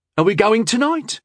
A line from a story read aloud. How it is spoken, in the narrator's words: Bandron said anxiously